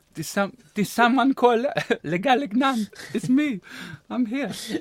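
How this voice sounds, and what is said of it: Attempted French accent sounding Spanish. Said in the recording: “Should be French. ... But that's a bit Spanish accent. ... I'm not the best with accents.”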